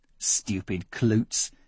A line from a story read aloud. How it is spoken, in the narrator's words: he muttered to himself